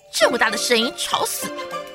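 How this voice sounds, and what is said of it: Angry loud scolding. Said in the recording (Chinese): “大发雷霆 ... 大声责骂”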